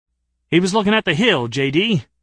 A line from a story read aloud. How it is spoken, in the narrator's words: the fat guy protested a little hotly